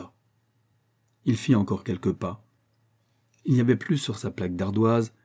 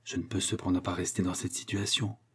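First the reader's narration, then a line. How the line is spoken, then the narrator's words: Murmuring. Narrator (French): murmura-t-il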